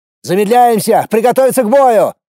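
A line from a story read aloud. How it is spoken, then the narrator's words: Shout. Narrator (Russian): крикнул я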